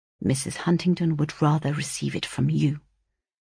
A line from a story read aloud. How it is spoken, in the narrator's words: replied he, in a very serious tone, but lowering his voice that his mother might not hear